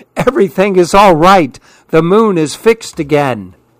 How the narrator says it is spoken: the smallest monkey called out happily

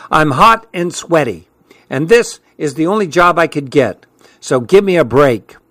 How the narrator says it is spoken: she said in an irritated tone

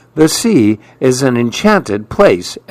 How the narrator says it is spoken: exclaimed Mirabelle

